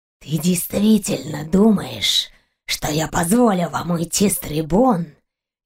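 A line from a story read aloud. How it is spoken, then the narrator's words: Furious hoarse rasp. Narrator (Russian): Яростно прохрипел Калвак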